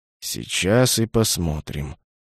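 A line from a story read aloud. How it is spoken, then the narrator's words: Muttering. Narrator (Russian): бормотал Юкена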